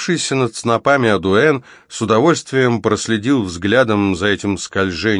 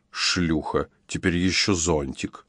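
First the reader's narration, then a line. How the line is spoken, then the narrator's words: Hissed through teeth. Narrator (Russian): Аделаида прошипела сквозь зубы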